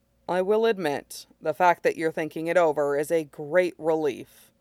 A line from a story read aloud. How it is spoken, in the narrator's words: says dryly